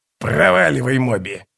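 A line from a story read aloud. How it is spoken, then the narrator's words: Hoarse wheeze. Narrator (Russian): прохрипел скрипач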